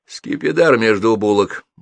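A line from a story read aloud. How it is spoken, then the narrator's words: Grimly joking doctor. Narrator (Russian): мрачно шутился доктор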